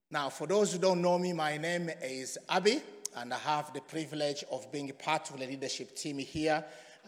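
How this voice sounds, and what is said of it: Croaky voice. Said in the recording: “excuse my voice. I had a croaky voice since yesterday.”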